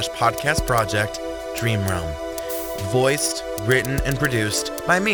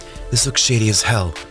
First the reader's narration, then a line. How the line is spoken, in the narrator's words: Jordan whispered to Elias